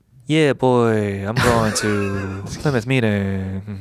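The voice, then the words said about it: Put-on Jamaican accent. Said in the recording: “I'm going to try my accent out. ... That's my ... Jamaican. ... That's spot on. Yeah. Spot on Jamaican.”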